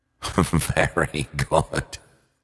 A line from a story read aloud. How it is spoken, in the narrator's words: laughed the hangman